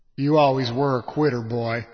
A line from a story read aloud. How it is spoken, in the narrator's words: Jacob Dawsey said, his voice the same thick growl that always preceded a beating